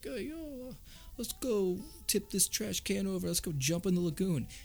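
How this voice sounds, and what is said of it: Poorly done bro accent. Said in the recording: “That's my terrible accent”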